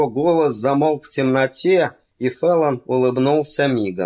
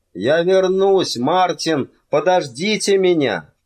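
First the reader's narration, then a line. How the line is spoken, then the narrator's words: Shouted through bars. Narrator (Russian): он крикнул через прутья решетки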